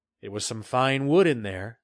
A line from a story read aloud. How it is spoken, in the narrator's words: he said with a gentle laugh